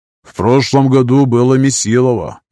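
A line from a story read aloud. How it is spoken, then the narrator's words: Gloomy. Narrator (Russian): мрачно сообщил Рин, инструктор по бою с секирой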